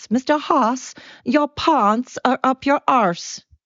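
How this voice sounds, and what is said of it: Poor imitation of South African accent. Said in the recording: “I'm sorry to any South African that happens to be listening ... I know I did not do your language justice, your accent justice”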